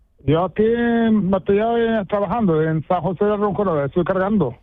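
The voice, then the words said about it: Moroccan-accented Spanish. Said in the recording (Spanish): “todavía te tienes tu acento de tu tierra, ¿eh? ... Y entonces todavía tienes tú el acento ahí”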